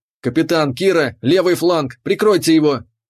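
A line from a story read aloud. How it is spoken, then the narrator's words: Barked over comm. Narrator (Russian): Рявкнул я в ком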